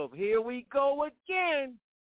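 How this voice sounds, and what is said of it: Imitates another person's voice. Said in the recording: “in my DMX voice”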